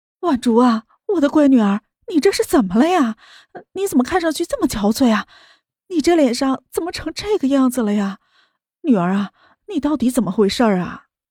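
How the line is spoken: Anxious clamoring. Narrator (Chinese): 汪兰叫嚷了起来

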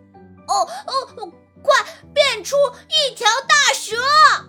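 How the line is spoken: Urgent shout. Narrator (Chinese): 小和尚见妖怪又追了上来 大喊

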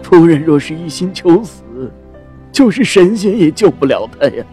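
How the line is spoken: Helpless sigh. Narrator (Chinese): 郎中没了法子，叹道

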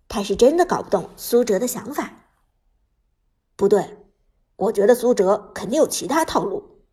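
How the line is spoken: Low, deep voice. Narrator (Chinese): 阿飞沉声说道

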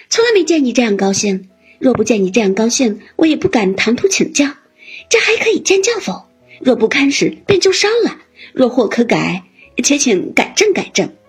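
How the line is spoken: Smiling. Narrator (Chinese): 黛玉笑道

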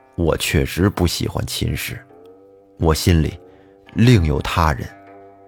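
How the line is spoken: Stunned, low, after long pause. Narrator (Chinese): 脸色铁青的李贵也愣住了，半天才低声道

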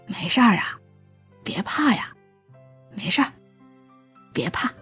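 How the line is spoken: Soothing mumble. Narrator (Chinese): 像哄小孩一样，边拍边嘟囔着说

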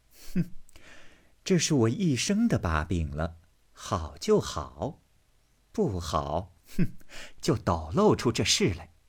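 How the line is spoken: Laughing. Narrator (Chinese): 平儿笑道

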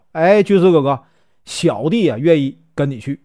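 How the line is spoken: Loud shout. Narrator (Chinese): 李逵高声叫道

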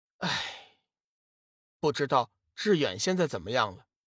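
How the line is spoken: Sighing. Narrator (Chinese): 龙宇叹了一口气

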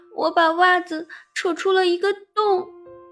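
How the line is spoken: Crying. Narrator (Chinese): 我哭着说

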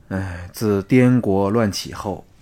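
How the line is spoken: Sighing. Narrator (Chinese): 春申君叹了一口气说

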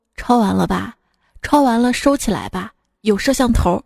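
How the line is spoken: Teacher speaking gently. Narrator (Chinese): 老师温柔地说

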